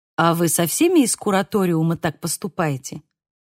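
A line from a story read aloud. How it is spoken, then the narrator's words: Plain. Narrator (Russian): спросил Хольден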